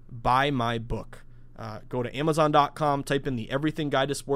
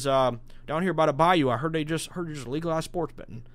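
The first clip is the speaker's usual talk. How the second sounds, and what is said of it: Not-great put-on Cajun accent. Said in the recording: “I don't have a great Cajun accent”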